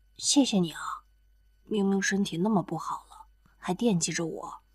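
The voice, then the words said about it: Quiet, grateful murmur. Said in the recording (Chinese): “很是感激的小声说着”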